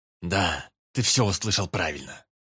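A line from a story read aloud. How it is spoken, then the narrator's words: Through gritted teeth. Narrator (Russian): Сквозь зубы процедил Верховный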